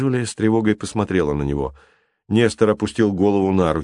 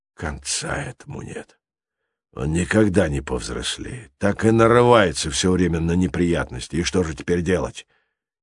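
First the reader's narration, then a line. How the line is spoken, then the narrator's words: Quiet question. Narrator (Russian): тихо спросил он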